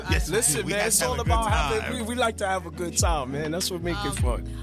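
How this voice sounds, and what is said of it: Smooth, calm radio voice. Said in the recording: “you have such a great radio voice ... such a lovely, smooth, calm voice”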